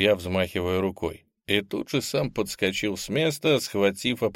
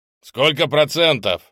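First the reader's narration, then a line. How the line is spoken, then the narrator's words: Yelling. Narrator (Russian): заорал я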